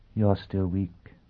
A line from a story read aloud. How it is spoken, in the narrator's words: Olivia Pristine said gently